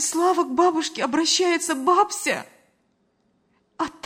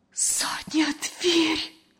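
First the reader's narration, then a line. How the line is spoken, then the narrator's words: Horrified whisper. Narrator (Russian): С ужасом прошептала Лена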